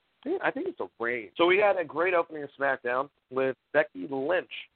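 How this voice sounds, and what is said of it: Slightly raspy voice. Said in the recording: “My voice is a little bit raspy right now.”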